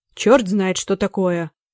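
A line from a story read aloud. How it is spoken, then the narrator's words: Grumbling. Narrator (Russian): проворчал он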